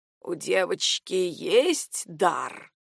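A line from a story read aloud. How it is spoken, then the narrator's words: Gurgling hoarse voice. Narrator (Russian): спросила она булькающим от хрипотцы голосом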